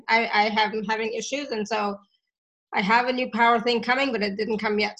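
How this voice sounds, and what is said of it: Voice giving out, strained. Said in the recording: “my voice is going ... I don't know why my voice is suddenly going ... because we did a lot of clearing from the throat”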